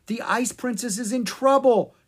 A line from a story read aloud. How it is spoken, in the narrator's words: she cried